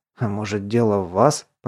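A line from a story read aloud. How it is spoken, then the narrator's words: Youngest man's mumble. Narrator (Russian): пробурчал самый молодой из них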